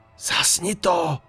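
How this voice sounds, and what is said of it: Whisper. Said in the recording (Czech): “Znovu jsem zašeptal”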